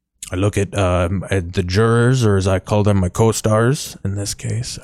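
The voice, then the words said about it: Canadian-sounding put-on accent. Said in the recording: “I don't know why I sound Canadian.”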